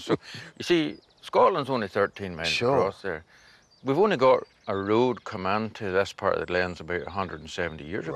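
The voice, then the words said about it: Half Irish, half Scottish accent. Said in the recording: “Your accent's so unique because it sounds like half Irish, half Scottish.”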